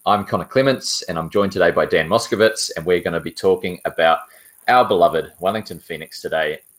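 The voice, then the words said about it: New Zealand accent. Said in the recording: “in a Kiwi accent rather than an Aussie one”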